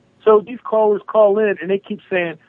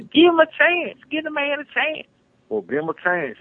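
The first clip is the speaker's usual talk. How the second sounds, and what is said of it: Exaggerated Southern cornpone accent. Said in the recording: “I'm going to do my cornpone accent ... You do that way too well.”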